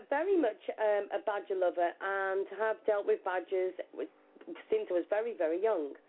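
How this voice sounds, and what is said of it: Shropshire English accent. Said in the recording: “I'm in Shropshire, as you can tell by the accent.”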